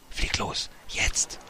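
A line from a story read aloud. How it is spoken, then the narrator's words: Whispered. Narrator (German): flüsterte er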